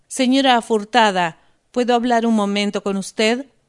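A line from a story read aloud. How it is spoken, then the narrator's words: Plain. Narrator (Spanish): preguntó Andrew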